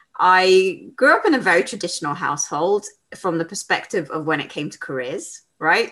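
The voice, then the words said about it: British London accent. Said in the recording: “you can probably guess by my accent, I'm from the UK. I live in London.”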